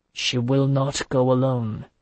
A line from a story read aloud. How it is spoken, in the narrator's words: he said in his softest, most deadly tone